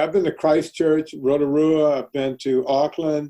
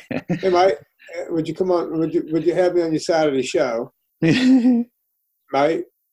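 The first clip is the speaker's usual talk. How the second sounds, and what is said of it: Put-on Australasian hybrid accent. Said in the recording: “good Australasian hybrid accent”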